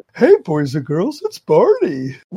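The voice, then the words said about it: Cartoonish Barney character voice. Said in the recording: “do my Barney voice”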